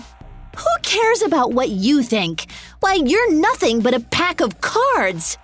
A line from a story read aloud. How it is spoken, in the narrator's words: Alice yelled